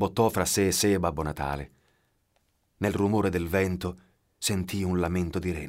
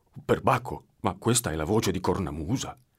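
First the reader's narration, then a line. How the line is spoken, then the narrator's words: Plain. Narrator (Italian): disse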